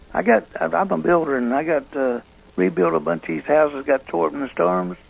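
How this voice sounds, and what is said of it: Troubled, failing voice. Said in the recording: “I got a little trouble with my voice ... My voice is shutting down now”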